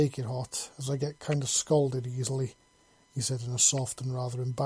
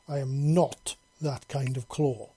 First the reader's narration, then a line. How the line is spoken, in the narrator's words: she growled